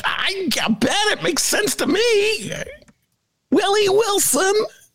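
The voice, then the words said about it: Imitates another person's voice. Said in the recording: “my Flannery imitation”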